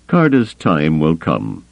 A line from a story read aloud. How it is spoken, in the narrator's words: Thrawn told him, his voice still calm but noticeably cooler